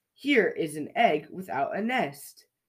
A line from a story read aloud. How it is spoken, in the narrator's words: said